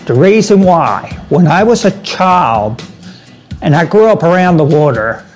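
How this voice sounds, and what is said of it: Maryland accent. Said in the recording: “that Maryland accent”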